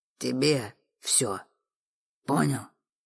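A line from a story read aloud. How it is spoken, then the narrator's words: Growled. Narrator (Russian): Прорычал тип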